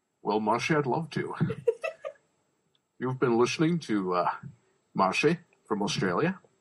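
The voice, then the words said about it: Sean Connery impression. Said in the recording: “do a Sean Connery impression,... why don't you end the show for us with a Sean Connery impression?”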